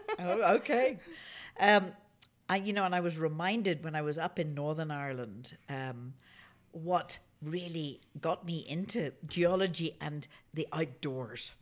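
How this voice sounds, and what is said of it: Thick Irish accent. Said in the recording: “back in Ireland with your fabulous accent ... my accent's going to be a bit thicker.”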